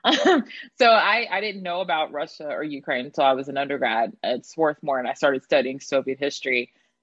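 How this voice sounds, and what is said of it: Southeast Texas accent. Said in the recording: “I am from rural Southeast Texas, and you can totally hear it in my voice.”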